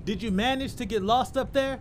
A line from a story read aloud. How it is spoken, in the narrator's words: shouted Camilla playfully